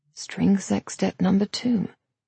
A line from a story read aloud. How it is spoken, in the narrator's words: Thomas murmured